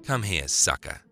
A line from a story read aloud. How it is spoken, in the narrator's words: snapped Jimmy